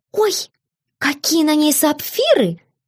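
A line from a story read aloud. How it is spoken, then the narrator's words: Young woman nearly squealing. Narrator (Russian): почти взвизгнула молоденькая придворная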